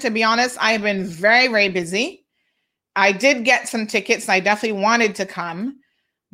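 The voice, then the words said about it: Trinidadian accent. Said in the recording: “stop hating on the Trinidad accent.”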